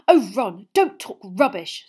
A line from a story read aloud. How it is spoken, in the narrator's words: snapped Hermione